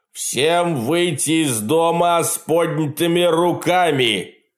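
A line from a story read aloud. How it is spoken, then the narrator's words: Loudspeaker-amplified roar. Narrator (Russian): проревел усиленный динамиком голос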